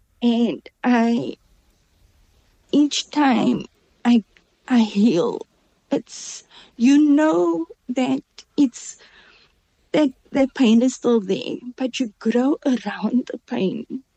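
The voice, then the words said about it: Emotional, voice close to tears. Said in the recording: “Sorry, I'm getting emotional”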